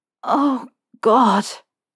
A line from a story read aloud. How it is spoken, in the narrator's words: Harry said, his voice so thick with need that he hardly recognized it